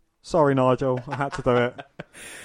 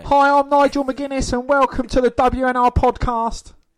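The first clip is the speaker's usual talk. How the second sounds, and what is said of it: British impression of Nigel McGuinness. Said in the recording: “a Brit with an annoying voice... my accent and mimic of him... What was your accent of him anyway?”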